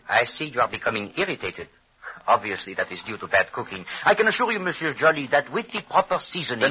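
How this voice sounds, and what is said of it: Exaggerated foreign accent, Hercule Poirot. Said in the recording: “that ridiculous accent”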